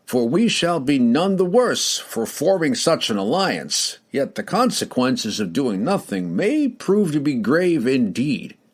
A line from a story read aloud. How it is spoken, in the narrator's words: he declared loudly